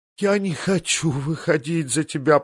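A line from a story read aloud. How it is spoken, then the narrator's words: Moaning. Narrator (Russian): простонала Санса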